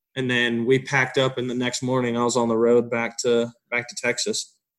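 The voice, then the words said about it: Country Texan accent. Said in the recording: “you kind of have a country accent”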